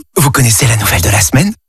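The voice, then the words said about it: Whispering. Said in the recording (French): “pourquoi chuchotez-vous?”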